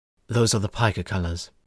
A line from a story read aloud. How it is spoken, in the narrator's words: Kory whispered under his breath